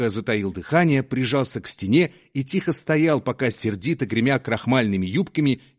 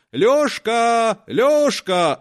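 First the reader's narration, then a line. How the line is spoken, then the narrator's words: Shouting, cook. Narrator (Russian): закричала кухарка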